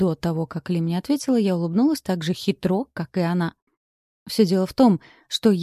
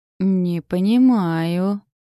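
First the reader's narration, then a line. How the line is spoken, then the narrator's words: Drawled. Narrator (Russian): протянула я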